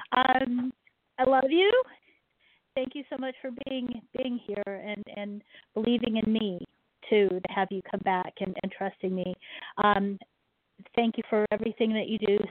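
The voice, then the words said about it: Choked-up, tearful voice. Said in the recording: “I'm all choked up. I'm verklempt. I'm gonna cry.”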